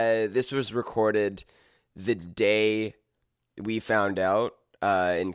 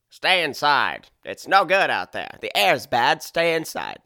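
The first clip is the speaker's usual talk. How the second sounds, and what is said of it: 1950s-style man's voice. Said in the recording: “my Trudeau impression as a guy from the 50s”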